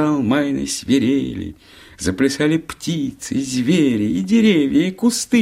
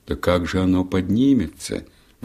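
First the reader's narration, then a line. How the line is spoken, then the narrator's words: Sighing. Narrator (Russian): вздохнула ночь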